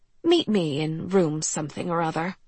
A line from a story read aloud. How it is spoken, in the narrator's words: they'd purr